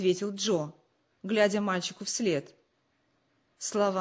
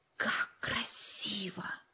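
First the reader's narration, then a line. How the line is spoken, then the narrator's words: Admiring whisper. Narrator (Russian): восхищенно прошептал Джо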